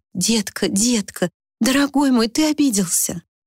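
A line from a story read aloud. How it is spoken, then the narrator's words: Pleading babble. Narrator (Russian): пролепетала умоляющим голосом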